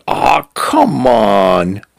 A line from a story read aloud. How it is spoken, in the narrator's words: Cal was there with her, ready to play, groaning